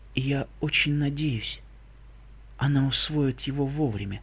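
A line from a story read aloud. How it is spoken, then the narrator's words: Whispering princess. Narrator (Russian): прошептала белая принцесса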